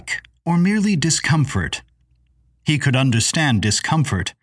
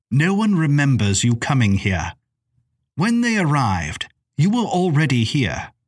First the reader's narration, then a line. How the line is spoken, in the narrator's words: Miss Maybelle returned icily